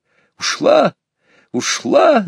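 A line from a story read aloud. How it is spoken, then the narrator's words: Yelled. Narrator (Russian): завопил я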